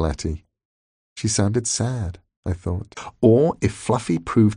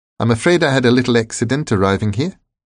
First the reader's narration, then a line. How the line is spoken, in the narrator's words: he told me cheerfully